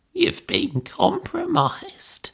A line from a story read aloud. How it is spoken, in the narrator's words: she croaked